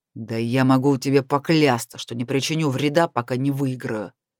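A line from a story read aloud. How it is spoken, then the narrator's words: Growling. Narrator (Russian): прорычал Натаниэль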